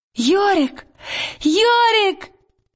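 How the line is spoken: Sudden joyful cry. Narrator (Russian): вдруг Лира радостно вскрикнула

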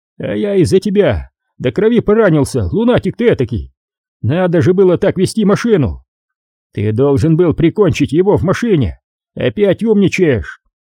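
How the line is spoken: Shouting up close. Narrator (Russian): Майерс ... закричать на него с более близкого расстояния

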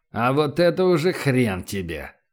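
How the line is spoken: Angry, through gritted teeth. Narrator (Russian): зло процедил Эрих Вакс

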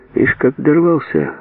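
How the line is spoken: Gloomy. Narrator (Russian): мрачно кивнул

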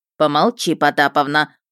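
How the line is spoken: Sharp scolding shout. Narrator (Russian): прикрикнула та, что с вязанием

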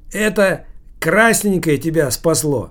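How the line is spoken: Loud, after drinking wine. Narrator (Russian): громко говорил дядя Сережа, опрокинувший в глотку полстакана домашнего вина

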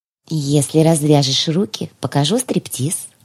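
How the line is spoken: Affectionate purring mew. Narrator (Russian): ласково промяукала я

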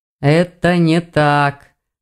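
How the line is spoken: Mage's gloomy reply. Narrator (Russian): мрачно отозвался маг

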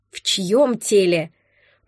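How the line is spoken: Upset, through gritted teeth. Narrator (Russian): процедила я сквозь зубы, окончательно расстроившись

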